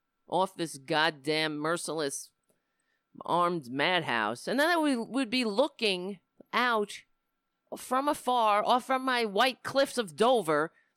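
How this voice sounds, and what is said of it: New York accent. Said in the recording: “I live in New York. I was born in New York. I hate my accent”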